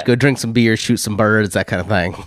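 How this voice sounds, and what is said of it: Put-on Southern drawl. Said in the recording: “That was a Southern drawl, not a Texas accent. I apologize to everyone who had to listen to it.”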